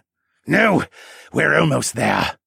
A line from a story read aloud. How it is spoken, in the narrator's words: he argued with a determined growl